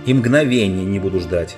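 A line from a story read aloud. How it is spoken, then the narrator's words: Plain. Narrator (Russian): сказал король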